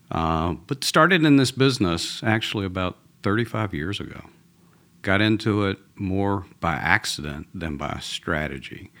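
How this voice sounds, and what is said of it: Southern US Georgia accent. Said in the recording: “I'm originally from Atlanta, from a Southern boy... this is a Georgia accent”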